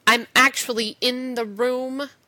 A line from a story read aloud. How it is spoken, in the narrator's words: Rodney says curtly